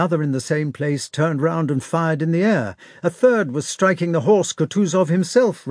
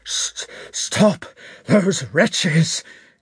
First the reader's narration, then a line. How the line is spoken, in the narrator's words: gasped Kutuzov to the regimental commander